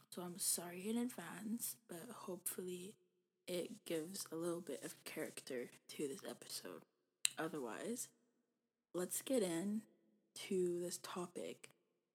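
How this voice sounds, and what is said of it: Slightly raspy, strained voice. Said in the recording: “lost my voice yesterday because I was screaming so much during the Super Bowl ... my voice might still be a little bit raspy”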